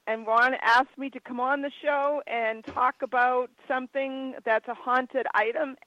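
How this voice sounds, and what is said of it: Hoarse, strained, failing voice. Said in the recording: “You sound like crap... I now am losing my voice.”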